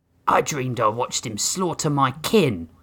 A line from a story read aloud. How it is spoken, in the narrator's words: Blotch muttered